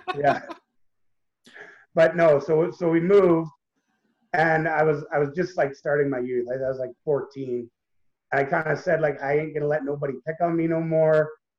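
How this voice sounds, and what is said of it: Canadian accent. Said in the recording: “if you can't tell by ... accent, he is from the Great White North”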